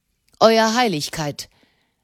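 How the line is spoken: Sharp. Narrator (German): sagte er scharf

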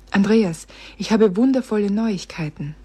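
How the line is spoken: Breathless. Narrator (German): sagte sie atemlos

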